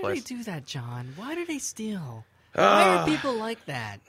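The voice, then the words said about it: Imitates another person's voice. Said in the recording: “That's my impression of Mrs. Papa Giorgio. ... my mom's pretty impression terrible.”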